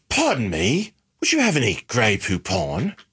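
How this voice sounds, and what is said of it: Put-on British accent. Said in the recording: “I want to hear your British accent.”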